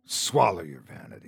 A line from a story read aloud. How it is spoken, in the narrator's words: the old man snarled